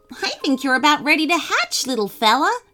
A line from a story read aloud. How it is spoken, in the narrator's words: Teddy chuckled